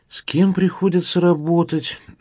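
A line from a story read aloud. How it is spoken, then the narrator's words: Sighing. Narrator (Russian): вздохнул мясник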